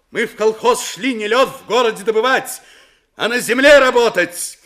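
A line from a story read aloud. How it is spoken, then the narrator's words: Shouting. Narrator (Russian): крикнула с места Строганова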